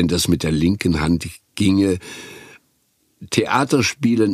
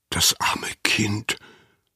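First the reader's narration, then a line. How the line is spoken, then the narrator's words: Whisper. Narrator (German): flüsterte Anna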